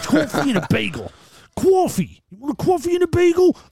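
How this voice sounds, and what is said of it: Put-on New York accent. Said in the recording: “proper New Yorkers, man ... another strange accent”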